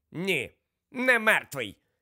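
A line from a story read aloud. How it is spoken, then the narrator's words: Angry. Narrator (Ukrainian): сердито відповіла МакГонагал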